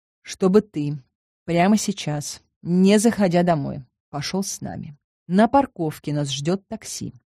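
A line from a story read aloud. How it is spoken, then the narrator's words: Plain. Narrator (Russian): сказал я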